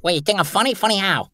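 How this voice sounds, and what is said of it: Joe Pesci impression. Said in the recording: “that was just an impression of Joe Pesci. ... Ah, Joe Pesci. ... You do some Joe Pesci”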